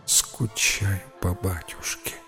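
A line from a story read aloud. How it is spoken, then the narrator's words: Whisper. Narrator (Russian): прошептала Белль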